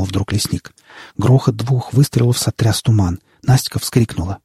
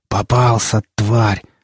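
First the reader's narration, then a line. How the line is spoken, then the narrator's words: Snarling growl. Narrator (Russian): зарычал лесник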